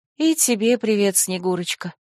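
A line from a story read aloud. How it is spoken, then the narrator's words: Resigned greeting, sighing. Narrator (Russian): поприветствовала я и обреченно вздохнула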